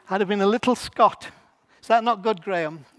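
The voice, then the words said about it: Poor Scottish accent impression. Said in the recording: “I'm not a good Scots impression.”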